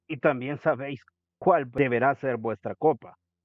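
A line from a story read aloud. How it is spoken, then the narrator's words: Devil growling. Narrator (Spanish): gruñó el diablo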